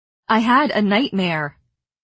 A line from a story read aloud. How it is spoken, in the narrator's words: I repeated a bit sharply